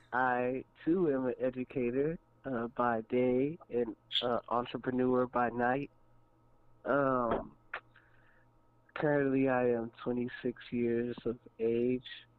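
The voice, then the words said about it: Put-on sexy voice. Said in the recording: “put on the sexy voice.”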